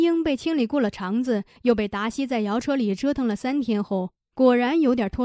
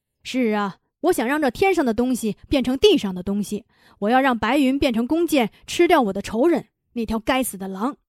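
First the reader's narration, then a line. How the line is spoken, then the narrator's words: Roaring angrily. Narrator (Chinese): 达西咆哮道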